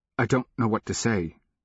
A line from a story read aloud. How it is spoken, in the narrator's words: he stammered